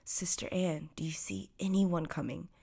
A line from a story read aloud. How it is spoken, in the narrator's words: replied she, and again softly called to her sister